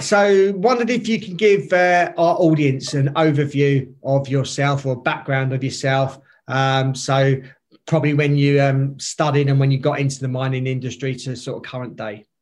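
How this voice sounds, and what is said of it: Noticeable accent. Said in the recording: “your voice. You got a great accent. Love the accent.”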